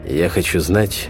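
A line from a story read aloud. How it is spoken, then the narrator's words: Tense voice. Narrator (Russian): сказал я напряженным голосом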